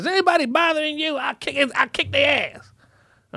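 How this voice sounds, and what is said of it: Old grandmother voice impression. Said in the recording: “my old grandmother impression of a voice”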